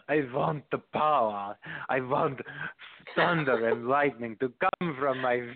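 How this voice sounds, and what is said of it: Imitating a heavy foreign accent. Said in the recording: “I'll talk in her, her normal sounding voice. She had a heavy accent”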